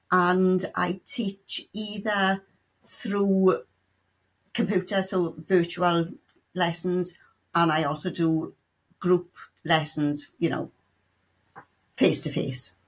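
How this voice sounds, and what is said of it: South Welsh accent. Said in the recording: “As you can tell by the accent, I'm from Wales, specifically South Wales.”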